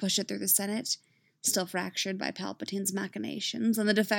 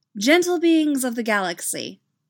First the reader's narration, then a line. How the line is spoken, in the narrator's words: she begins, her voice amplified to every corner of the Republic and beyond